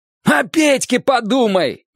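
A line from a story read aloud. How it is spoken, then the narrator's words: Roaring. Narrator (Russian): взревел он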